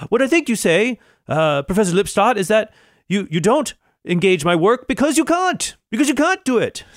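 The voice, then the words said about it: Character voice with an accent. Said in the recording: “I apologize for accents here. I'm not trying to do an accent. I'm trying to do a character voice.”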